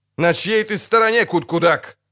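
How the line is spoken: Shouted. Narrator (Russian): крикнул Райнфарн из Атре

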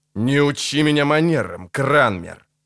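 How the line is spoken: Through gritted teeth. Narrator (Russian): процедил рыцарь

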